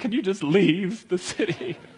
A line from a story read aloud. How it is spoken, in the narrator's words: they begged him